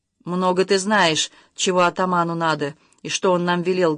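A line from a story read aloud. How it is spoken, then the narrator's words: Rude objection. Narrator (Russian): грубо возразил ей Увар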